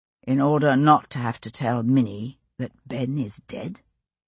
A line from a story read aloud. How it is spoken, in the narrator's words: he said quietly